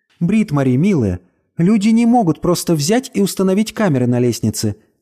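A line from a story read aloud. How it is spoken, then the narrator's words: Mother sighing. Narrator (Russian): вздохнула мама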